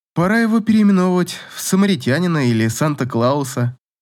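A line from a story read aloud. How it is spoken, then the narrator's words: Laughing. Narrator (Russian): засмеялась Катя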